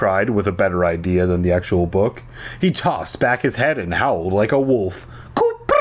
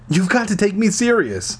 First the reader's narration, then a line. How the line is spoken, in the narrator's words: I pleaded